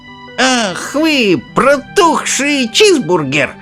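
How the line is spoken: Old woman shouting. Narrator (Russian): закричала бабушка Джорджина

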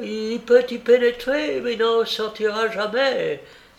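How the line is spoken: Exclaimed. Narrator (French): s'écria-t-elle

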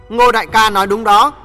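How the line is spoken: Stern voice. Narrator (Vietnamese): Tiểu Ngọc nghiêm giọng nói

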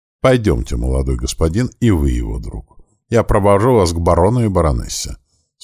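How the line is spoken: Calm, kindly. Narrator (Russian): спокойно и благожелательно сказал он

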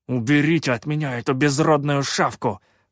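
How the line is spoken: Angry hiss. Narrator (Russian): Зло прошипел Шутай

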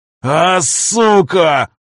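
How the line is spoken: Roar like wounded bear. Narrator (Russian): Раненым медведем взревел Виктор

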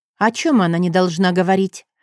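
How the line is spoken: Cold question. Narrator (Russian): спросила я холодно

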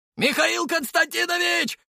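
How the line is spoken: Shouted. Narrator (Russian): крикнул

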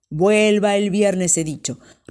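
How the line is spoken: Commissioner roaring. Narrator (Spanish): rugió el comisario

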